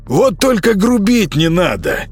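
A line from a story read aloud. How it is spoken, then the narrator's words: Hoarse wheeze. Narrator (Russian): прохрипел кот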